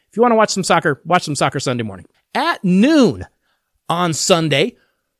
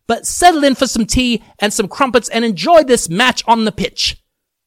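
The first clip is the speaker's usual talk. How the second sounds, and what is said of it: Put-on British accent. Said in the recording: “I change into a British accent when it comes to the Premier League”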